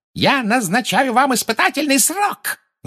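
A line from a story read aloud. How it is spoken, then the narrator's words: Shrieking yell. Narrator (Russian): завопила Амбридж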